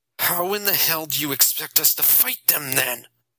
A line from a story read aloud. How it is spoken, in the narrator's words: Jason asked, nearly growling